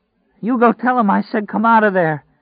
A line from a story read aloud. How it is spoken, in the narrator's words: she cried, and then was silent, except for the heavy bronchial sound of her breathing